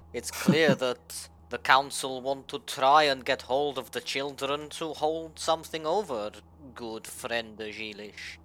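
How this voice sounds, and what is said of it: Poor put-on accent. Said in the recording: “The accent's shit, but I can't do ours in the accent at all ... I can't roll my R's anyway”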